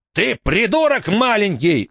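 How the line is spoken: Shouting. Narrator (Russian): закричал шофер

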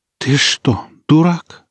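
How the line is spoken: Breathed out at last. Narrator (Russian): выдохнула она наконец

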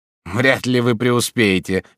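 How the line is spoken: Seller's snort. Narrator (Russian): фыркнул продавец

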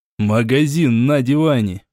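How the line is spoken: Short laugh. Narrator (Russian): хохотнул я

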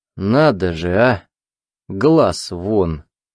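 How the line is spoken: Hoarse laughter. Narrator (Russian): хрипло рассмеялся, будто сказал что-то очень смешное

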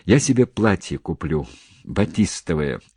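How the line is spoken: Timid remark. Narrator (Russian): робко заметила худышка

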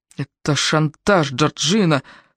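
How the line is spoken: Through gritted teeth. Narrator (Russian): сквозь зубы процедил Клинтон

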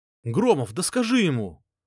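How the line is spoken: Shouting. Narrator (Russian): крикнул Варк

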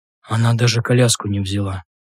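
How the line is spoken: Lost mumble. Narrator (Russian): пробормотал потерянно

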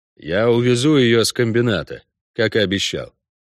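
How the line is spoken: Dry reply. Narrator (Russian): сухо ответил Геральт

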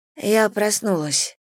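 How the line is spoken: Hoarse croaking. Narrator (Russian): прохрипела я

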